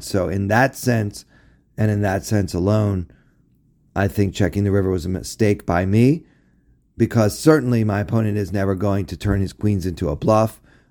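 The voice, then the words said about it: Hoarse, strained, failing voice. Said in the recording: “my voice is really giving out on me here ... this is not what I typically sound like ... I should rest my voice ... afflicted by the effects of pollination”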